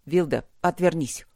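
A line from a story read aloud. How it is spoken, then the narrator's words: Growling. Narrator (Russian): рыкнул Гроул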